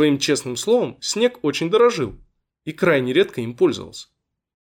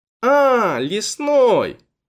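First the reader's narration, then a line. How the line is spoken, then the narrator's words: Drawling. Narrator (Russian): протянула Веруня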